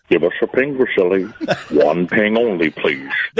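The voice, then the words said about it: Fake Sean Connery impression. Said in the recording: “fake Sean Connery”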